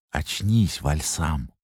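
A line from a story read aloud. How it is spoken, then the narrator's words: Whispered. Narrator (Russian): прошептал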